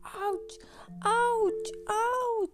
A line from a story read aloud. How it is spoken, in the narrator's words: Emmy shouting